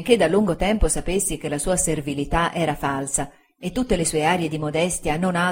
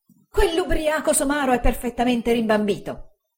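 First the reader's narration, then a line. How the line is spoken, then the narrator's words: Exclaimed. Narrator (Italian): esclamò Uriah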